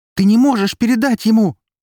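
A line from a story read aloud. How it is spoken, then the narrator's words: Desperate shout. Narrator (Russian): закричала Эри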